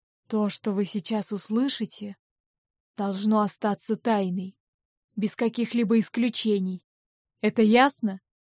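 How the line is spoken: Quiet, meaningful tone. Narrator (Russian): тихо и со значением сказал

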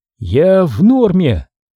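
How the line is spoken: Clumsy hoarse rasp. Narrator (Russian): просипела она, удивившись неловкости собственных губ

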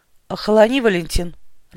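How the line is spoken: Growl. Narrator (Russian): рыкнул Хромов

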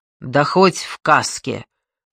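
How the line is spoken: Vague reply. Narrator (Russian): туманно ответил Чарский

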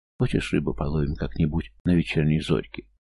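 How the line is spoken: Timid suggestion. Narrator (Russian): Юлька робко предложила

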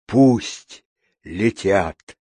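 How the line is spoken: Hoarse king's rasp. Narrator (Russian): прохрипел король

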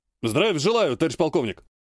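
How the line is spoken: Brisk bark. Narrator (Russian): Бодро гаркнул ВПшник

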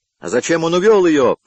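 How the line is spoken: Shouting. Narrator (Russian): кричал тот

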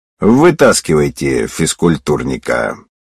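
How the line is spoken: Calm. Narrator (Russian): Я спокойно сказал

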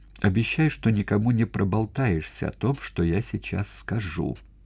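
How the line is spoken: Quiet speech. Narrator (Russian): тихо произнесла мать Катерина

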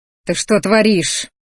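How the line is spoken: Angry dragon growl. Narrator (Russian): злобно зарычал дракон

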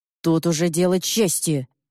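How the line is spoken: Old man growling. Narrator (Russian): рычал дед

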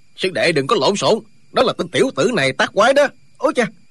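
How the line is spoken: Old man's hurried shout. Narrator (Vietnamese): Lão nhân lùng vội quát lên

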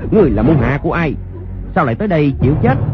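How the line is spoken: Loud shout. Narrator (Vietnamese): Người sử đơn đao quát lớn

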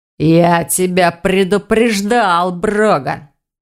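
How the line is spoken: Werewolf growling. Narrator (Russian): прорычал оборотень

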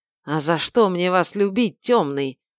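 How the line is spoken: Forced out. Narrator (Russian): выдавил вор

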